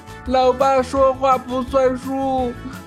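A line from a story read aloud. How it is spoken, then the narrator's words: Child wailing, crying. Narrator (Chinese): 儿子哇哇大哭了起来，对老爸说道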